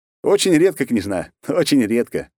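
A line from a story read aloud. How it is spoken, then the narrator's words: Laughing. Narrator (Russian): засмеялся я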